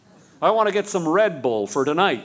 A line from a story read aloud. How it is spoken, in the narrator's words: said Murphy